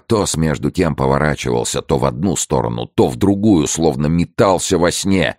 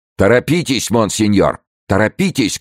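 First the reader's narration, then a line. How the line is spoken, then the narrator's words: Shouting crowd. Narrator (Russian): кричали бретонцы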